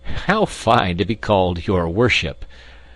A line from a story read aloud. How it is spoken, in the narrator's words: laughed Ludwig aside to Lambert